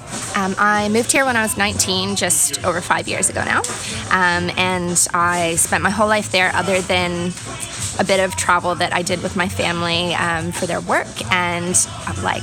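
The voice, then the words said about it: Strong American accent. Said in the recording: “my very strong American accent”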